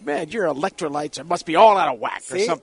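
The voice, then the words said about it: Imitates another person's voice. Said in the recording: “That's a pretty good impression.”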